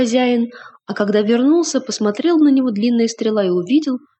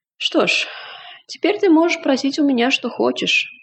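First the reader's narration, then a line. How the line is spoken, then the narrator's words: Old man's sigh. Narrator (Russian): вздохнул старик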